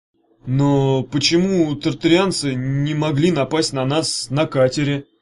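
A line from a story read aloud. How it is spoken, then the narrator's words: Plain. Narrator (Russian): спросил Евгеша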